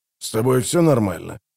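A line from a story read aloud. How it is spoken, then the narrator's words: Whispered. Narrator (Russian): прошептал Амос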